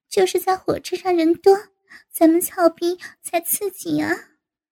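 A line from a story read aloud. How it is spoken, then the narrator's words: Laughing. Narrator (Chinese): 吴敏笑道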